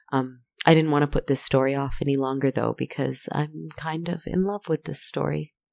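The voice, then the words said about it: Rough, hoarse voice. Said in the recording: “my voice is sounding rough. I've been quite sick with some awful laryngitis.”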